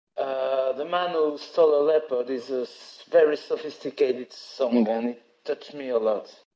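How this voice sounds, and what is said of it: Non-native English accent. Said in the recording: “Sorry for my English, for my accent.”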